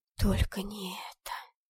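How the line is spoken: Dismayed whisper. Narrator (Russian): прошептала

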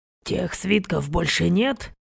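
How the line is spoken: Quiet. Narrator (Russian): тихо произнес Клаврентий

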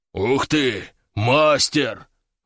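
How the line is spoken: Admiring breathy exclamation. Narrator (Russian): восхищенно выдохнул его хозяин, такой же здоровенный мужик

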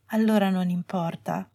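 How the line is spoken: Said in low voice. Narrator (Italian): disse a voce bassa

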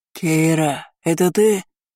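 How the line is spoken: Hoarse, from next room. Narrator (Russian): Хрипло донеслось из соседней комнаты

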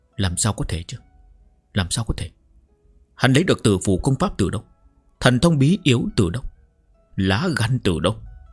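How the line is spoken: Disbelieving mutter. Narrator (Vietnamese): Trì Trích Vân vẫn khó tin, lẩm bẩm

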